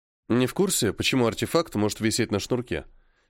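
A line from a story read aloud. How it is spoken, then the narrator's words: Plain question. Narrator (Russian): спросил я Постникова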